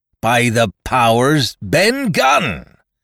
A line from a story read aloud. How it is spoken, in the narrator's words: roared Silver